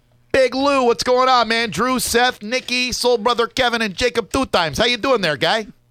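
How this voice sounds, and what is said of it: Put-on accent. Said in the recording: “Loving the accent”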